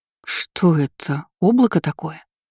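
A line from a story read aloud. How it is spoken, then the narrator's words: Hoarse question. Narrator (Russian): Хрипло спросила она у Байда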